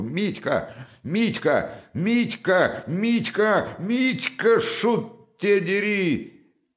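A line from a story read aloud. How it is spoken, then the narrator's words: Shout ending in shriek. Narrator (Russian): Крик закончился взвизгом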